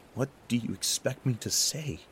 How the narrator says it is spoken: I gasped

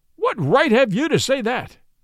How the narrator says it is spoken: he cried

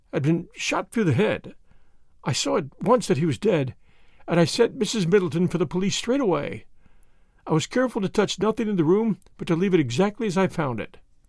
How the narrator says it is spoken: her voice faltered

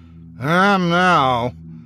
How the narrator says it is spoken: I remarked dryly

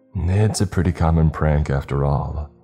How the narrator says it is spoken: the younger cop sighed

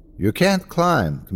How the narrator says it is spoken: Camilla said

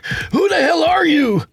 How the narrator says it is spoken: Tony shouted

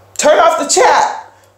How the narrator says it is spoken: one of the other storytellers yelled

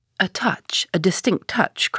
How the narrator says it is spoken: cried Holmes

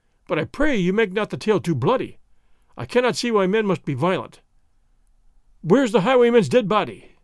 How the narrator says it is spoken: Gonzales choked

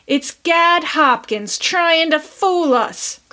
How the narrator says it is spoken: cried F

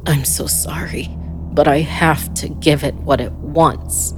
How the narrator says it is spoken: he said through gritted teeth

